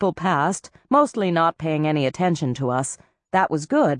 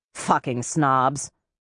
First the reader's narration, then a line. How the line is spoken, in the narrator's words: Savarden, walking behind me, muttered